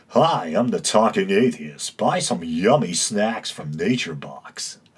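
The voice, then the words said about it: Smooth radio voice imitating the Thinking Atheist. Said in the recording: “he almost has that unnaturally smooth talking radio voice”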